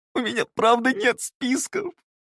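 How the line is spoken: Sudden sob. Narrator (Russian): Вдруг всхлипнул Скапул

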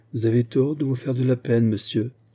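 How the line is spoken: Plain. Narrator (French): répondit-elle enfin

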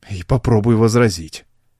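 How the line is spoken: Grumbling mutter. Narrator (Russian): пробурчал Хейнс

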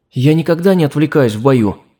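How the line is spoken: Exclaimed. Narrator (Russian): воскликнула Алина

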